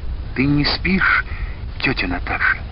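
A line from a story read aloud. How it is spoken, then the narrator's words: Sudden whispered question. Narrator (Russian): шепотом спросила вдруг она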